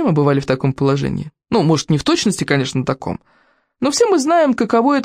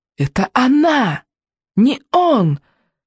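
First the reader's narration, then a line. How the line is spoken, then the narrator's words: Shout muffled by helmet. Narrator (Russian): крикнул в ответ Икинг, но сквозь шлем донеслось лишь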